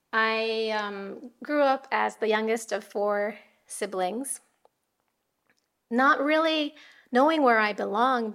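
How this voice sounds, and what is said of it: American accent. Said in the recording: “hence my American accent ... I sound American”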